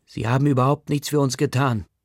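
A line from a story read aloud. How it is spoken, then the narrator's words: Father shouting angrily. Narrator (German): schreit Omvirs Bügelwaller-Papa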